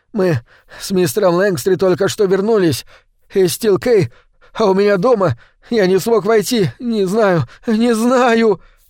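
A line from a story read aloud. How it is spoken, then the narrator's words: Whimpering. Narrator (Russian): проскулил Кейл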